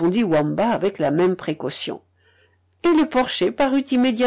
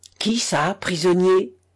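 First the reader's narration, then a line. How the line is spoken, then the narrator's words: Impetuous exclamation. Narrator (French): s'écria Gert avec impétuosité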